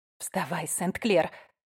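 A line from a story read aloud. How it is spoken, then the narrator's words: Blurted whisper. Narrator (Russian): выпалила она шепотом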